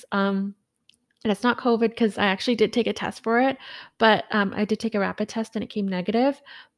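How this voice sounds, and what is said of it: Slightly hoarse voice. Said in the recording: “recovering from a little bit of a cold. So my throat is a little hoarse.”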